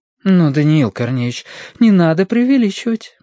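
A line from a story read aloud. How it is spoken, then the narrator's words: Gentle reproach. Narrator (Russian): мягко укорила его Оксана Эдуардовна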